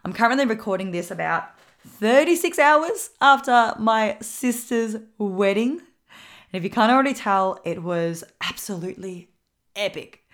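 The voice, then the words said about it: Slightly husky voice. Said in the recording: “my voice is a little bit husky for this episode ... A lot of talking, yelling, singing, dancing, screaming”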